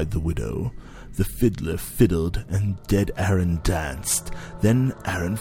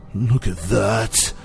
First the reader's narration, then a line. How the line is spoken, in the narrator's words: groaned the fiddler